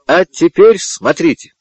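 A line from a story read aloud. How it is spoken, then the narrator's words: Exclaiming. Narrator (Russian): воскликнул Мартин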